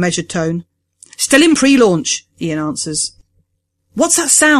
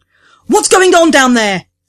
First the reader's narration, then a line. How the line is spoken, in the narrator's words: Sira shouts